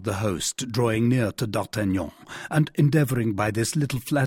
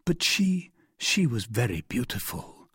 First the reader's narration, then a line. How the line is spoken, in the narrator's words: murmured D'Artagnan